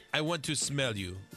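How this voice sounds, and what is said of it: Put-on foreign accent. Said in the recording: “He's not foreign. ... Whenever I send a dirty text, it always has an accent.”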